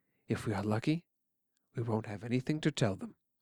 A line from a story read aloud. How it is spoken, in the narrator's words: my father said calmly